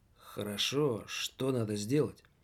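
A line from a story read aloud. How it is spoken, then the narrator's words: Mumbled. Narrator (Russian): пробормотал господин Радио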